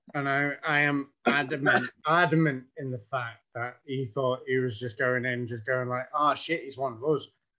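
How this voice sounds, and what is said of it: Irish accent. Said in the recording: “as normal as a fellow with an Irish accent can go ... How's talking with an Irish accent called talking normal?”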